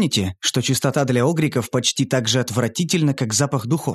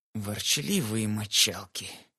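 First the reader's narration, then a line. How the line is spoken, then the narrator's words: Creaky father's voice. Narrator (Russian): проскрипел папа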